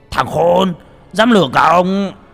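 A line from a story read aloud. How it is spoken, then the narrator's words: Angry roar. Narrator (Vietnamese): Thành Dương gầm lên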